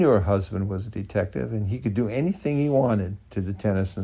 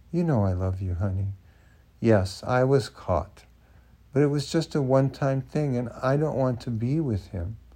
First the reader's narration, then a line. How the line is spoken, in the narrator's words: purred at him and said softly